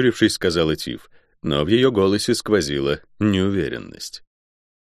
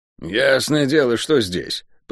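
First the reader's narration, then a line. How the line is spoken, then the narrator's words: Grumbling. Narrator (Russian): проворчала Тиф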